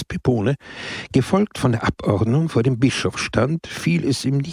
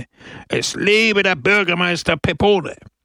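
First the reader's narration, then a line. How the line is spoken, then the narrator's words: Crowd roaring. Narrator (German): brüllte die Menge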